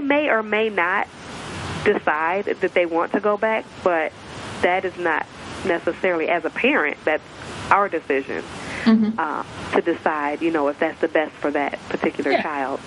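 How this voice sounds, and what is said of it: Slight Southern American accent. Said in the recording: “I can detect a little bit of a Southern accent ... I can definitely hear a Southern accent”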